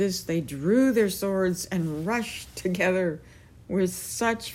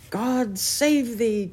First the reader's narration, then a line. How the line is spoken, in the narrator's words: cried Sir Grummore